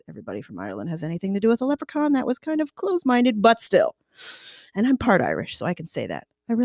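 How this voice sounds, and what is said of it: Usual voice. Nothing is said of it.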